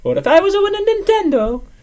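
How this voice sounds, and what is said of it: Mario cartoon character voice. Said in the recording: “That's Mario. ... I'm doing a lot of voices today.”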